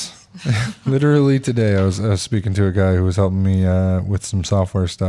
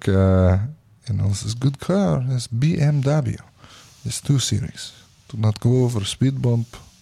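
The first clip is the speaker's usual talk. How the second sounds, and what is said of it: Put-on Russian accent. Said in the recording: “I do have a decent Russian accent. At least my friends say so.”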